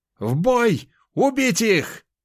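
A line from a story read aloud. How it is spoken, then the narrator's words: Shouting. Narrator (Russian): Прокричал Тайш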